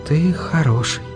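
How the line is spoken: Whisper. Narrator (Russian): прошептала она

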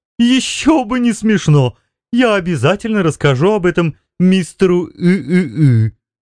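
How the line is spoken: Laughing. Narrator (Russian): продолжая смеяться

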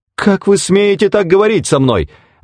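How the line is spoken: Exclamation. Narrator (Russian): воскликнула Пэт

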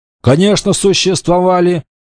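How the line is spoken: Snorting smirk. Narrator (Russian): Ипсев хмыкнул

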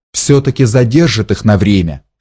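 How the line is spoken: Plain. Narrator (Russian): сказал слуга

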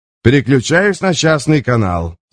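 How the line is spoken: Calm announcement. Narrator (Russian): спокойно объявил Алан

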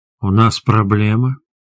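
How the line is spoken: Purring tiger cub. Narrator (Russian): мурлычащим голосом спросил тигренок

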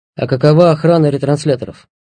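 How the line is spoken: Plain. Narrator (Russian): ответил Хоквер

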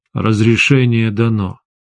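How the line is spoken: Said dully. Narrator (Russian): глухо сказал

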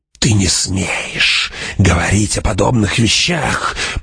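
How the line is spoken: Hissing old woman. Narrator (Russian): прошипела старуха

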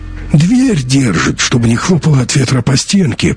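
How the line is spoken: Hoarse explaining voice. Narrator (Russian): пояснил хрипун

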